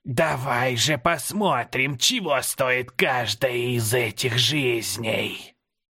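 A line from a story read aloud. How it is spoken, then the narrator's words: Hissed through a smile. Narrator (Russian): улыбнувшись кривыми остатками зубов, прошипела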